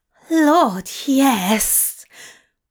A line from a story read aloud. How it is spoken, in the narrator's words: Aziraphale groaned again, throbbing with lust